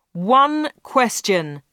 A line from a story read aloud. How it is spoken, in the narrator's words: shouted Dave